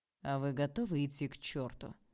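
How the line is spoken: Icy reply. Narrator (Russian): Ледяным тоном ответил Олег

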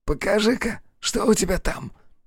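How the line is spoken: Wheezing. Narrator (Russian): просипел он

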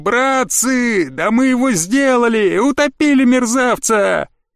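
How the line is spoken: Crowd shouting joyfully. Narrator (Russian): На обеих палубах радостно заорали

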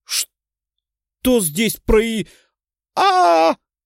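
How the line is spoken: Screamed. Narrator (Russian): закричала Валерия

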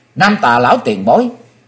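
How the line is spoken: Joyful cry. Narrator (Vietnamese): Chí Tôn hoan hỷ kêu lên

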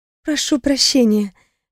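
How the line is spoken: Timid. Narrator (Russian): я робко улыбнулась

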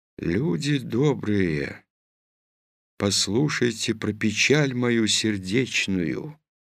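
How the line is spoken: Very quiet tearful singing. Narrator (Russian): тихо-тихо, будто плачет, запела

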